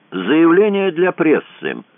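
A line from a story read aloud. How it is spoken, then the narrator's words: Loud. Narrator (Russian): громко сказал Кацуба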